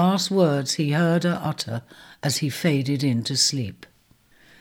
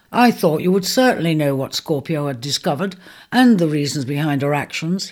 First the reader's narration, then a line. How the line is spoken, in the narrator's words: he said